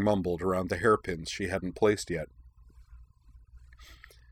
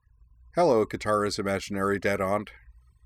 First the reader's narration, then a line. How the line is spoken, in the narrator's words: With a little grin, she said in a slightly raised voice